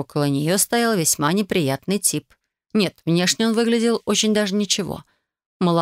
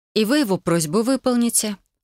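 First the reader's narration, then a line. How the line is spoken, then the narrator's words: Calm, confident. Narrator (Russian): спокойно произнесла я, ощущая ничем не объяснимую уверенность в своих силах и возможностях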